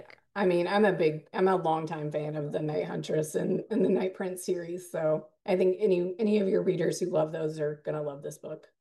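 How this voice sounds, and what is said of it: Strained, fading voice. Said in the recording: “I'm losing my voice.”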